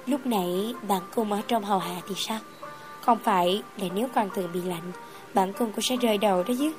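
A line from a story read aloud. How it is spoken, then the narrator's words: Soft laugh while speaking. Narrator (Vietnamese): khẽ cười, nói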